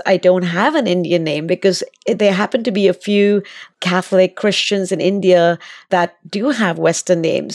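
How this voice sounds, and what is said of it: Slight accent. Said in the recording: “people might have picked up a bit of an accent”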